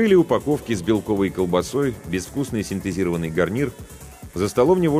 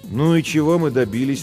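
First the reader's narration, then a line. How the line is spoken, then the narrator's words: Tired question. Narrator (Russian): устало спросила Жен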